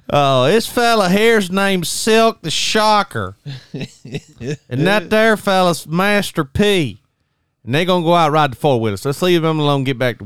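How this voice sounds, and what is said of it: Old Southern accent imitation. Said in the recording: “that old Southern accent ... You're not far off from his accent.”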